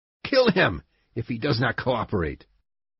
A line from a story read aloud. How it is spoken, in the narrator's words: one of the policemen shouting